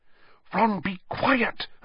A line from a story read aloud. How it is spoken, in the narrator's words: Hermione whispered urgently